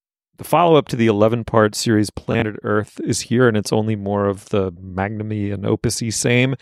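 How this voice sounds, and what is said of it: Usual voice. Nothing is said of it.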